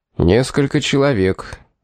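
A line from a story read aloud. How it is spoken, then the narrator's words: Joyless answer. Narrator (Russian): безрадостным тоном ответил Корнуолис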